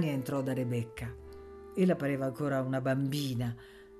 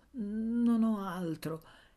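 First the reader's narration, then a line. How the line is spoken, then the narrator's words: Stammered. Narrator (Italian): balbettò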